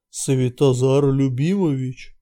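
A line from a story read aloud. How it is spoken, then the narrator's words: Deep old man's voice. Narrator (Russian): густым голосом сказал старик из-за спины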